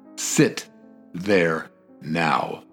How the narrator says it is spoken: In a more solemn voice, Abreu said

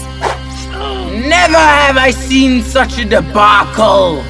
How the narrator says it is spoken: he shouted

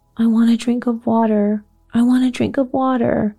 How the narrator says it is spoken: Mary was sobbing

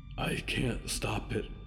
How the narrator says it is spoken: said a whisper in his head, as quiet as the world

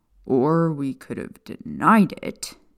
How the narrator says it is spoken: Sirius said with a groan

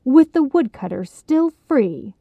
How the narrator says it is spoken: she sneered

